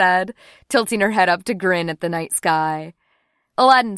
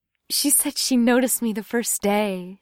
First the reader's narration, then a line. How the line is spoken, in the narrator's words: said dreamily